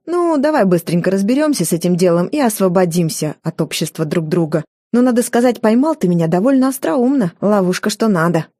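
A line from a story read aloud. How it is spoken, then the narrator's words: Respectful chuckle. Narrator (Russian): Гагарин уважительно хмыкнул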